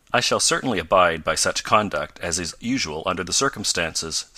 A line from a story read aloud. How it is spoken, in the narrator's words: said Professor Beecher more stiffly than before